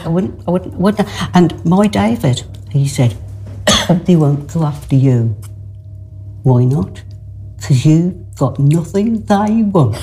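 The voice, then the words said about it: Local regional accent. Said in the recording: “It's so lovely to hear a story told in its, you know, in its accent, in its place.”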